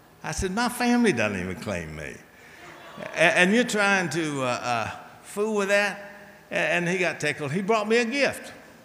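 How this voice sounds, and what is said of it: Speaks with a noticeable regional accent. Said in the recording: “Listen to this accent.”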